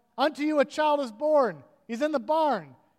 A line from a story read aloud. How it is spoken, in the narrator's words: she yelled